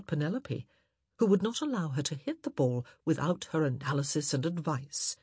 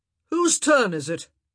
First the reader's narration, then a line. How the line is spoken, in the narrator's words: he called out